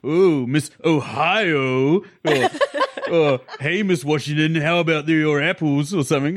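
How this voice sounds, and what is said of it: Imitates a film character's voice. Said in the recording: “You're the perfect Frank, though. That's a good Frank impression.”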